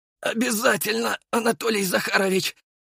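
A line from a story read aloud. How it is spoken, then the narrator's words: Hoarse rasp. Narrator (Russian): прохрипел я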